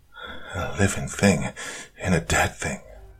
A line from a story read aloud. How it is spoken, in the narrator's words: whispered Doc Blaine, cold sweat on his face